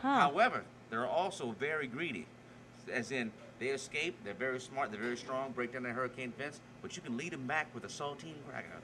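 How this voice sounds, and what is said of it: Thick Louisiana accent. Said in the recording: “I love your accent. ... As soon as we get over the big bridge in Baton Rouge, his accent gets thick.”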